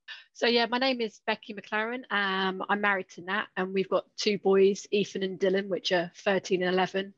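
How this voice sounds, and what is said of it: English accent. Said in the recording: “as you can probably tell from my accent, I'm from England”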